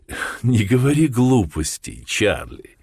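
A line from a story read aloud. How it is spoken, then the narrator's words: Laughing. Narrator (Russian): рассмеялась миссис Хардинг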